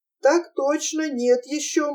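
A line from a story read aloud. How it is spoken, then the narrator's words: Cowardly giggle. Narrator (Russian): малодушно хихикнул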